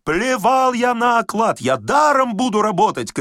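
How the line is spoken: Excited shouting. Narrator (Russian): кричал инженер, взволнованно

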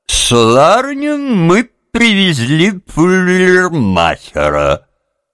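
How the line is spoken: Forced cheerful, loud. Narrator (Russian): Не зная, как начать, Курт … собравшись силами, бодро и громко сказал

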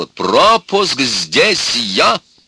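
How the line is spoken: Proud, contemptuous shout. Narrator (Russian): Она … с удовольствием, гордо, презрительно … презрительно и гордо тоже кричала

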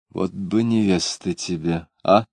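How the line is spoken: Quiet speech. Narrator (Russian): она тихо сказала

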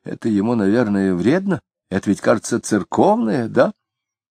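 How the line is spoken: Quiet. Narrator (Russian): Плотникова сказала тихонько

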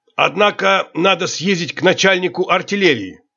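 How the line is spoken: Serious commanding tone. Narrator (Russian): сказал мне капитан серьезным начальническим тоном

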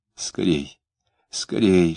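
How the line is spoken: Urgent whisper. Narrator (Russian): шептала она

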